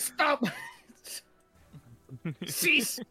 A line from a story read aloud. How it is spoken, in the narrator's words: shouting